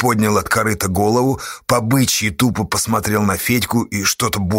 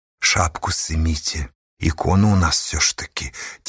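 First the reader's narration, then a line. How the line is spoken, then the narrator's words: Quiet. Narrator (Russian): тихо сказала она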